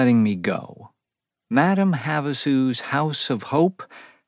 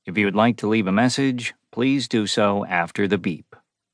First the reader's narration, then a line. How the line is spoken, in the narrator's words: the machine had said in a robotic voice